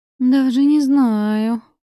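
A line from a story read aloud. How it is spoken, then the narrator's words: Drawn-out girl's voice. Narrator (Russian): протянула девушка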